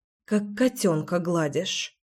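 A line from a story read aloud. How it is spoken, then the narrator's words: Grumbling. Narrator (Russian): проворчала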